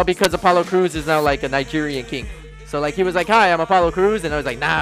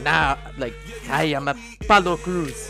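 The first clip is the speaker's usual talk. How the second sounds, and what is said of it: Put-on Nigerian accent. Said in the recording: “That is my best Nigerian accent.”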